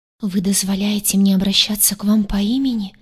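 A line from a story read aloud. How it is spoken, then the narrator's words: Frightened whisper. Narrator (Russian): испуганно прошептала она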